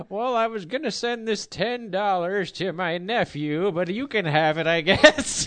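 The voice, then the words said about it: Old lady voice. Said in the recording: “you do a way better old lady voice than I do.”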